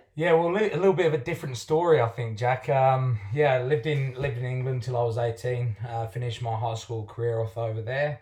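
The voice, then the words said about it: English accent. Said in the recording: “you're a Pom, by your accent”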